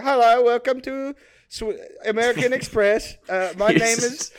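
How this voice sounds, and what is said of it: Put-on Swedish accent. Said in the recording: “I'm doing a Swedish accent because the guy on the other end of the line is definitely Swedish.”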